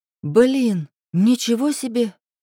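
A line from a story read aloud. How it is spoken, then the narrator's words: Exclamation. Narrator (Russian): воскликнула Лерка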